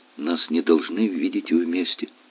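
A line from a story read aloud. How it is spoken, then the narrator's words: Faint rustling whisper. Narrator (Russian): произнесла она так тихо, как только ветер может прошелестеть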